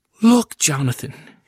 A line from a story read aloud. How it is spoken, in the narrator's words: exclaimed